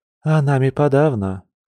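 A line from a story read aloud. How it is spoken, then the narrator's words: Gloomy reply. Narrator (Russian): мрачно отозвалась серая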